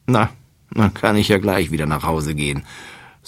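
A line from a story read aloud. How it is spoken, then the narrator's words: Sighing. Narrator (German): seufzt Gerstenkorn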